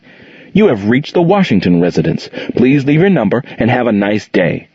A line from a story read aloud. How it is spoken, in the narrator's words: The pleasant voice of the answering machine that never had to feel sorrow or pain answered cheerfully